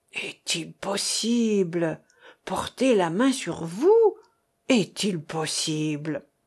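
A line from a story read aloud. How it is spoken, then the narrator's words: Tearful moaning. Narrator (French): Larmoyante, elle gémissait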